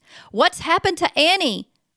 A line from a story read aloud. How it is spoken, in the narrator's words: He shrieked